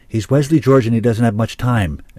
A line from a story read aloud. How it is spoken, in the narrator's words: Zack started to say